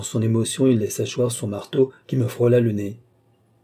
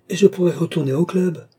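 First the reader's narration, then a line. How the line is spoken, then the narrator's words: Exclaim. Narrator (French): s'écria-t-il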